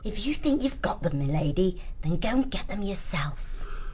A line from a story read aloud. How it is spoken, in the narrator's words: The fox muttering beneath her breath